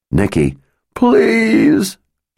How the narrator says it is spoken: sobbed

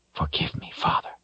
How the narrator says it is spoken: he whispered

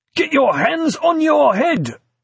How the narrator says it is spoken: he shouted harshly, tension edging a voice he was, with some small success, struggling to control

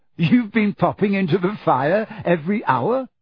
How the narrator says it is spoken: Harry said, half laughing

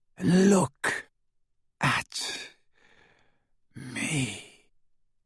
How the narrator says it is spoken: he whispered

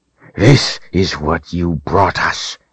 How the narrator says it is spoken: the man hissed

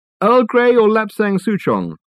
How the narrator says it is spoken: called out Reg

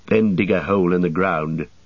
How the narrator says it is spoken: said Legolas

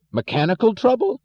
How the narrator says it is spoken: yelled Mr

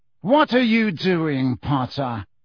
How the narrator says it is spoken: said Snape coldly as ever

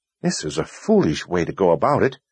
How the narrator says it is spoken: Kalin muttered

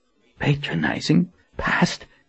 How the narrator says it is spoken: he muttered as he read to himself

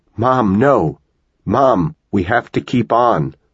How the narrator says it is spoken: she cried out with joy

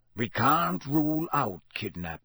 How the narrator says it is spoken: growled Moody

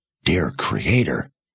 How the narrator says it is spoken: Sebastian whispered

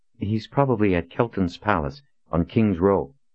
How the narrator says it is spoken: Colin said

